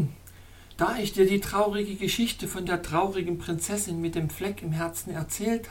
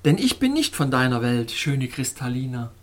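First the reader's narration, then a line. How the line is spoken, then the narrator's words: Cheerful. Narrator (German): sagte fröhlich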